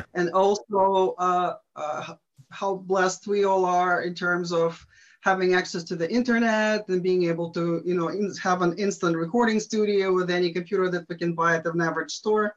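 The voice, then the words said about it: Eastern European foreign accent. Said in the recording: “as you can tell from my accent, behind the Iron Curtain”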